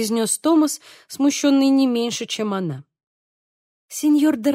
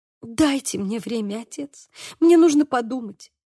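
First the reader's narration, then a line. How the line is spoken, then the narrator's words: Pleading. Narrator (Russian): взмолилась Хулиана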